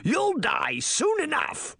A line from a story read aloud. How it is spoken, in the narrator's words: A ferocious roar echoed back at the monster